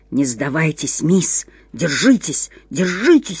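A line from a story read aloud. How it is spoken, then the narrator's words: Urgent whisper. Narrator (Russian): шептал какой-то голос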